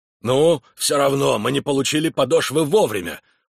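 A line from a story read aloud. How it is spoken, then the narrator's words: Shouting. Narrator (Russian): прокричал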